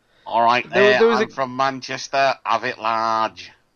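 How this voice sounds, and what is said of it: Robotic put-on Manchester accent. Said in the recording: “doing his Mancunian accent... That's a bit like how I imagine a robot from Humans might do a Manchester accent... I've got a bit of hay fever, so it's not quite like Manchester... It sounds like a bot with damp.”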